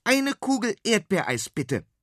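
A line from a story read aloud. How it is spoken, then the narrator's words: Called out. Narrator (German): ruft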